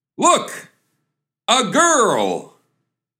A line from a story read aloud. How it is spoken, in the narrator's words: The other guy is ecstatic, and he exclaims